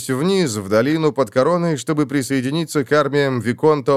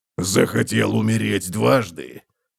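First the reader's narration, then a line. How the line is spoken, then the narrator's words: Hoarse rasp. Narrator (Russian): прохрипел Готрек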